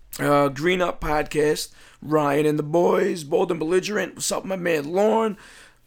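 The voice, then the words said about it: Slightly hoarse, failing voice. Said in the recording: “I'm losing my voice a little bit. I might not get through this.”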